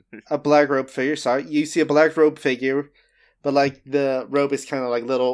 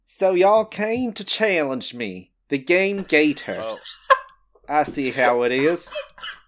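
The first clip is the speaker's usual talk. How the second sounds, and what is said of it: Put-on Southern accent. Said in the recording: “You can't have a charming southern accent. ... I'll have as many charming southern accents as I want, y'all. ... It's actually not that charming.”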